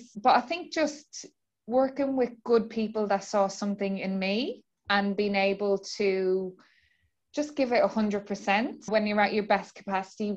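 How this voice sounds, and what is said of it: Irish accent. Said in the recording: “with you transitioning from Ireland, and you have such a beautiful accent,”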